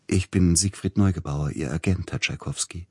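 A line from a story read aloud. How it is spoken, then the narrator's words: Soft, sugary male voice. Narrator (German): sagte mit sanfter Stimme der Mann und lächelte süßlich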